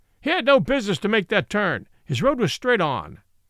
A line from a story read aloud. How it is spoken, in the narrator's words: said the man roughly